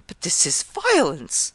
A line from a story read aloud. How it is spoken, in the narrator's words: Caesar arose, exclaiming